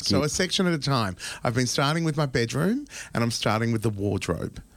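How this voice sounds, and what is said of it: Blocked nose, congested voice. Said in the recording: “you can even hear it in my voice. Like I can hear how blocked my nose is.”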